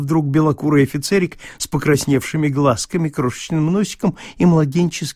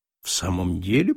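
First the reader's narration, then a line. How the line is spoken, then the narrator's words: Muttered through teeth. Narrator (Russian): пробормотал князь сквозь зубы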